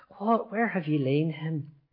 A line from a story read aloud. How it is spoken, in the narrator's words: he groaned in spirit and was troubled and said